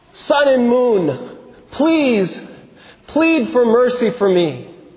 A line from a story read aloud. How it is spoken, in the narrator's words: he exclaimed